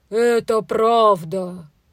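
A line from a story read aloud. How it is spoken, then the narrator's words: Ogre's deep bass. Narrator (Russian): басом отвечал людоед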